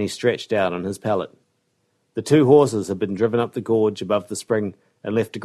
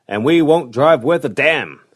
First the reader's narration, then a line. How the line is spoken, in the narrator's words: snapped Clell